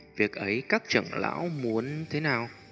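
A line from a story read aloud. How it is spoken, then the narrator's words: Careful, embarrassed. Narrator (Vietnamese): Tiêu Viêm vẻ mặt hơi xấu hổ, cười gượng mấy tiếng, đợi khi ổn định tâm tình mới cẩn thận nói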